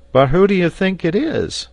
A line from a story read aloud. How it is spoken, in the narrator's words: cried Neb